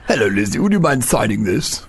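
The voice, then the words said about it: Imitates another person's voice. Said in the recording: “That's a very good impersonation. I thought it was him. Close my eyes.”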